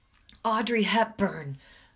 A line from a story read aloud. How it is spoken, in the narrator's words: almost shout